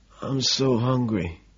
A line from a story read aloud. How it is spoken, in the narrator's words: The bum shamefully, his nose running, after clearing his throat says quietly